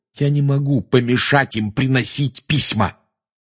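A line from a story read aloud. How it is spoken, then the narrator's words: Snapping retort. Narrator (Russian): огрызнулся Гарри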